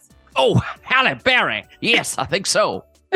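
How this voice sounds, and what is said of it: Bad Southern Foghorn Leghorn impression. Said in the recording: “that's a southern accent... like foghorn like a... leghorn... a terrible impression of foghorn leghorn”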